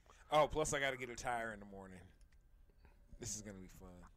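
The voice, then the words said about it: Deep, sultry voice dropped an octave. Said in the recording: “That was your normal voice? ... You dropped that down ... my Val Venus impersonation ... that was very porno ... Got a down an octave there.”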